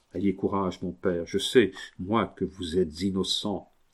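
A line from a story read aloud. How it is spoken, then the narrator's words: Ceaseless very soft speech. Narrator (French): Dominique lui disait incessamment en tout bas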